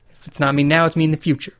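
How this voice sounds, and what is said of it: Imitates another person's voice. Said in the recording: “it's the worst Matthew McConaughey impersonation”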